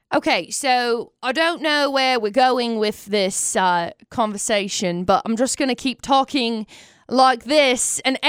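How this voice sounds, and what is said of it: Put-on English accent like Russell Brand's. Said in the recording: “Russell Brand accent”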